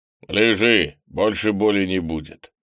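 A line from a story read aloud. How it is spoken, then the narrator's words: Stern. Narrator (Russian): строго сказал Крис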